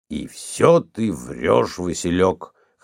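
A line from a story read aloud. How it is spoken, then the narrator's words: Drunk hoarse undertone. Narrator (Russian): хрипел в полголоса пьяный Гораська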